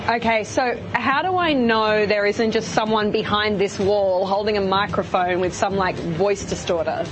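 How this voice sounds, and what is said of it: Australian accent. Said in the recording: “I have a bit of an accent ... I'm actually from Australia”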